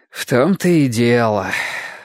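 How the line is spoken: Sighing. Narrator (Russian): вздохнул Ясон

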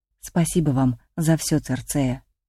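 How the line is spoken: Quiet. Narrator (Russian): тихо сказала

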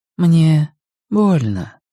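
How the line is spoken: Soft, gentle. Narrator (Russian): мягко сказала Надин

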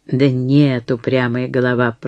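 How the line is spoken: Grumbling. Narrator (Russian): проворчала Сара

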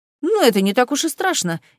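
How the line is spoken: Young man, nervous exclamation. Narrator (Russian): нервно воскликнул молодой человек

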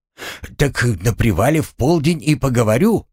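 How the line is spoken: Joyful exclamation. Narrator (Russian): обрадованно воскликнул Ефим

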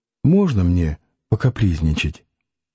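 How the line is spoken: Soft, weak, smiling question. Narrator (Russian): улыбаясь обескровленными губами, спросила тихонько

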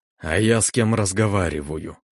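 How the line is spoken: Hoarse, jaw barely moving. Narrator (Russian): Прохрипел я, едва ворочая челюстью

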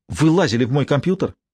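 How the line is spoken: Angry. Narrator (Russian): сердито сказала она

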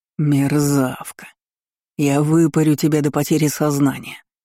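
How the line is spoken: Furious male hiss. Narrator (Russian): зашипел мужчина, осознав, что я провела его как последнего идиота

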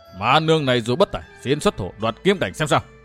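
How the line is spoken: Raised voice, cutting in. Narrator (Vietnamese): Ma nương đỏ ngầu đôi mắt, cao giọng chen vào

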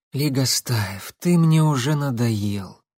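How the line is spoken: Tired. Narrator (Russian): устало сказала Татьяна

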